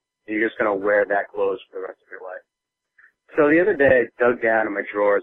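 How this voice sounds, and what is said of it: Congested voice from a cold. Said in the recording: “I've got a cold, so I'm gonna kind of sound a little crappy”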